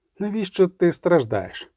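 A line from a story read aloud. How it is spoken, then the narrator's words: Serious calm pedantic sorceress voice. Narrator (Ukrainian): запитав кортик серйозним, спокійним голосом педантичної чародійки на ім'я Тісає де Фрейс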